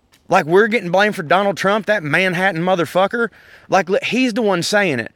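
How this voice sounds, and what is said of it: Southern US accent. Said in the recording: “a lot of Southerners ... them motherfuckers ain't got my accent ... down here”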